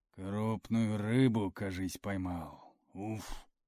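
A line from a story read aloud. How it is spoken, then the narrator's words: Exhaled words. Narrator (Russian): выдохнул он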